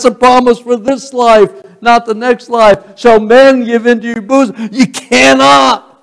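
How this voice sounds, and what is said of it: Usual voice. Nothing is said of it.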